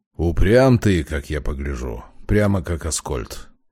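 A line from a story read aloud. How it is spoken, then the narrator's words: Exasperated grumble. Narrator (Russian): наконец в сердцах проворчал Демьян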